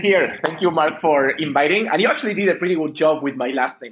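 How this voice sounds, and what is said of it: Spanish-accented English. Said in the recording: “I'm using my Spanish accent ... The Lithuanian core, but the Spanish flair on it ... my sexy Latin accent”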